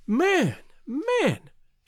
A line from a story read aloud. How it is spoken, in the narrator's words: she cried